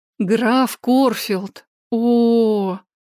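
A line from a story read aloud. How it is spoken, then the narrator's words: Silent inner groan. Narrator (Russian): мысленно застонала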